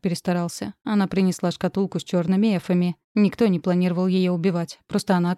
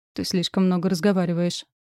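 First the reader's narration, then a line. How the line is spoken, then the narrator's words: Cold remark. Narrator (Russian): холодно заметил император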